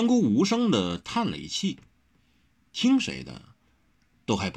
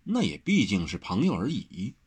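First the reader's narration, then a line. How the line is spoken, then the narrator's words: Flat, indifferent. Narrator (Chinese): 三姑淡淡的道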